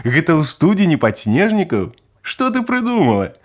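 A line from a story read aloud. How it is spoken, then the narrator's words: Old man laughing. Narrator (Belarusian): Засмяяўся стары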